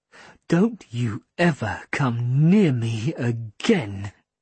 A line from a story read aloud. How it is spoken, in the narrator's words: Mum hissed